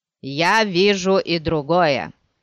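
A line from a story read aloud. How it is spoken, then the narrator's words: Grumbled. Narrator (Russian): проворчал Адрик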